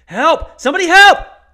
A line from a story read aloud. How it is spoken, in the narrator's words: shouts